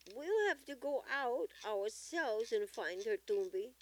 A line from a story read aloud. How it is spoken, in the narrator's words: exclaimed Gongi